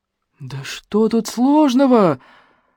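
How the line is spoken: Shout turning to hoarse whisper. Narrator (Russian): закричал было Смешарин, но боксер так на него глянул, что тот мгновенно осип и продолжал уже почти шепотом

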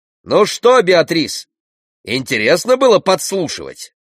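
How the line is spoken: Throat-clearing shout. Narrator (Russian): священник прокашлялся и крикнул

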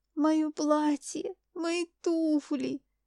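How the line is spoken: Moaning. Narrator (Russian): стонала они

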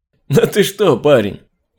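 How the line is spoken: Laughing policeman. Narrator (Russian): рассмеялся полицейский

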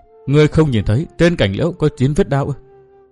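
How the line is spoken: Sobbing woman. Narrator (Vietnamese): Tiểu Băng bưng mặt khóc thút thít, thị đã cố nhẫn nại mà không chịu nổi

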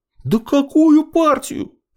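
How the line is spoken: Exasperated near-howl. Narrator (Russian): чуть не взвыл Смолин

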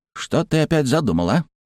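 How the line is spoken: Hissed. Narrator (Russian): зашипел Страйгер

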